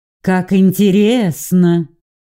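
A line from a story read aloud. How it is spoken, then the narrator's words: Displeased drawl. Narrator (Russian): протянула недовольно Сильвия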